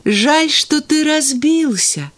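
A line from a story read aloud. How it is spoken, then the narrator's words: Sad boy. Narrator (Russian): печально сказал мальчик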